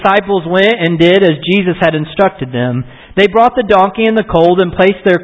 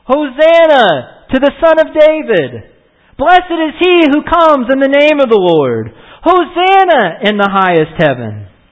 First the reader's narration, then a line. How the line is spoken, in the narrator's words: The crowds that went ahead of them and those that followed him shouted